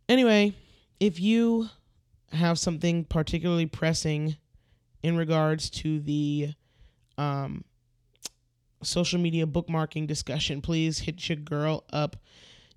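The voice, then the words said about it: Very tired, strained, scratchy voice. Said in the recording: “my voice is very, very tired, so it's taking a lot of me to push it out to speak ... you're going to hear some scratching and some, you know, weird vocals, like when people are going through puberty ... my voice is very tired, so I'm pushing”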